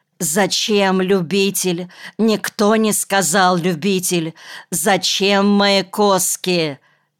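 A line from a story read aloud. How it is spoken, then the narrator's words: Thin angry shout. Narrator (Russian): тоненько закричал рассерженный Монакин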